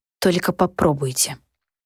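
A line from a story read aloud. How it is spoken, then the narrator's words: Very quiet. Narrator (Russian): очень тихо произнесла я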